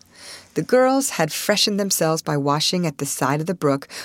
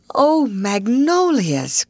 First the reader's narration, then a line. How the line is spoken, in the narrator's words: cried Ruth